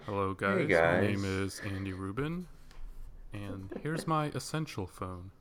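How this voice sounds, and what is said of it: Low soothing imitation voice, poorly done. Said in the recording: “I feel like he'd have a low voice... Very soothing... doing a terrible impression of Andy Rubin”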